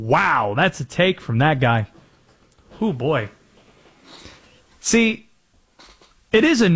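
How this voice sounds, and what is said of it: Usual voice. Nothing is said of it.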